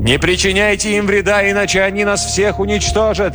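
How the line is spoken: Shouted. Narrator (Russian): крикнул он своим людям

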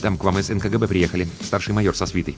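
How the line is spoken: Hurried, quiet report. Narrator (Russian): звукорежиссер Тимарцев торопливо, негромко сообщил

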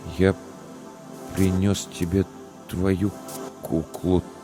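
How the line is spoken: Strained, forced out. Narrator (Russian): только и смог выдавить Илья

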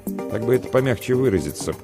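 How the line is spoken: Chuckling. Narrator (Russian): хохотнул

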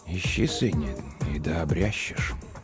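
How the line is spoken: Very quiet, to himself. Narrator (Russian): Он ответил тихо-тихо, словно самому себе

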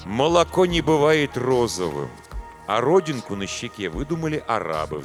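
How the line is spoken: Sighed. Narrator (Russian): вздохнул Самуэль

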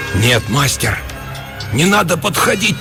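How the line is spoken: Failed shout, faint whisper. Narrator (Russian): Попытался крикнуть я и сам едва услышал свой шепот

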